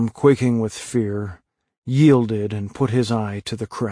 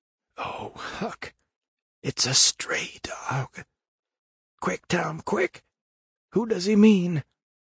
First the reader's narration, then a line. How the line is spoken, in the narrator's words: His whisper was hardly audible when he said